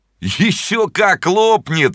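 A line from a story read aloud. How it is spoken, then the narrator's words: Boys laughing. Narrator (Russian): смеялись мальчишки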